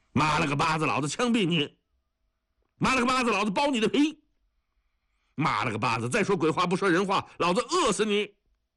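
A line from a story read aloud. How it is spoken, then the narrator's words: Roaring, cursing threats. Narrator (Chinese): 冯存满吼骂威胁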